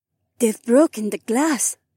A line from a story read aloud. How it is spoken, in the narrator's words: Heiwan whispered